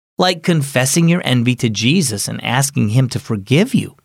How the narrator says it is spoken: Mom replied

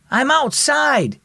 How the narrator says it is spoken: Dan yelled from the porch

